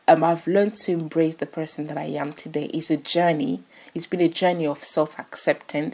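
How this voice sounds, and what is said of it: Non-British, French and Ghanaian-tinged accent. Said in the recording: “I didn't sound British, and I still don't sound British. I think I sound French and Ghanaian and Italian.”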